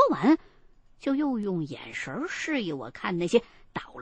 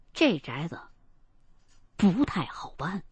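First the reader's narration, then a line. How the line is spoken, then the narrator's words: Quiet muttering. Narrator (Chinese): 秦一恒却小声的跟我嘀咕，说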